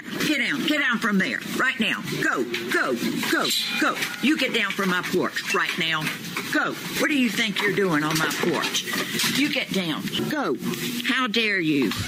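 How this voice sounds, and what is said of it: Stern, commanding teacher voice. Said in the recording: “the teacher voice is real”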